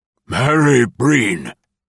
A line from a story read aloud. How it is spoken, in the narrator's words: old man shouted